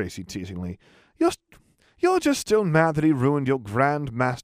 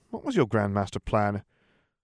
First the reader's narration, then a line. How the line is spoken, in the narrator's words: Daphne sighed